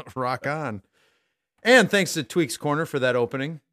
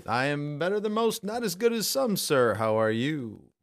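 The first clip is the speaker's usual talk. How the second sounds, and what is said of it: Announcer-style radio voice. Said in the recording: “That was my best radio voice yet, maybe.”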